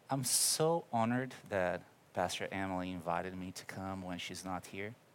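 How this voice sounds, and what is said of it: Brazilian accent. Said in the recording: “I'm from Brazil. You're going to see it coming through my accent.”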